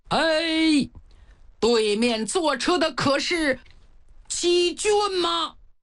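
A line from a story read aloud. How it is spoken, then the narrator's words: Shouting at full voice. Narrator (Chinese): 康萧扯着嗓子喊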